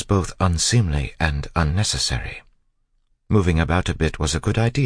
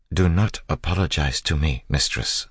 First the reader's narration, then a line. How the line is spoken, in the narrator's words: Sazed said quietly